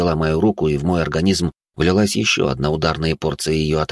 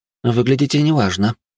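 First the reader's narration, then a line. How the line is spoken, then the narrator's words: Feigned worried tone. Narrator (Russian): произнесла она наигранным, обеспокоенным голосом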